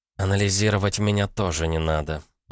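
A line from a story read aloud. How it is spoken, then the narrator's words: Grumbling. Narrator (Russian): проворчала она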